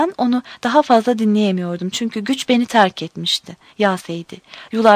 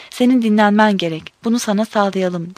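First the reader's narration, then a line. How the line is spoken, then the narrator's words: Plain. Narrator (Turkish): dedi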